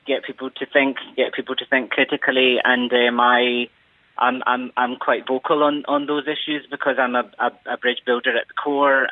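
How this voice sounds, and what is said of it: Scottish accent. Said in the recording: “that's obviously a Scottish accent I'm hearing there”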